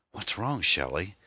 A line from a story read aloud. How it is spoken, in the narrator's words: he asked uneasily